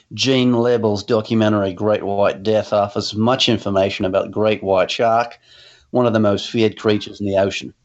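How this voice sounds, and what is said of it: Put-on Australian accent. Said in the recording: “read those in an Australian accent”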